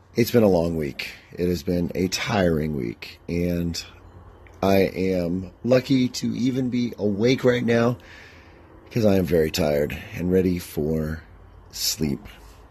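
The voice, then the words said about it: Tired, worn voice. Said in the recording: “I am pretty darn tired. And as you can hear, my voice is not what it usually is.”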